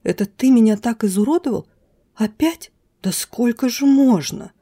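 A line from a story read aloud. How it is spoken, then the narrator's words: Angry hiss. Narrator (Russian): прошипела я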